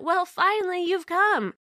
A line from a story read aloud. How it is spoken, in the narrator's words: my crazy cousin smiled happily and said